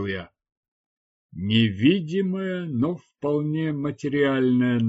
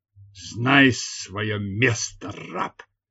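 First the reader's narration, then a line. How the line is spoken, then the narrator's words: Furious growl. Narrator (Russian): прорычал разъяренный голос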